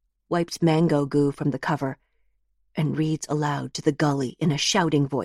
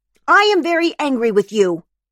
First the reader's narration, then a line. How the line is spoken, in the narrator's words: she shouts